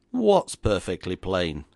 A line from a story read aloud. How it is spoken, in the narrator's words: demanded, more gruffly, perhaps, than etiquette would have sanctioned